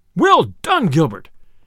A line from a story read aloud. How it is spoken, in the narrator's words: cried the sheriff, right joyously